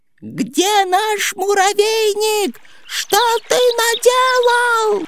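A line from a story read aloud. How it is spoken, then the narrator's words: Anxious squeaking chorus. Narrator (Russian): тревожно пищали они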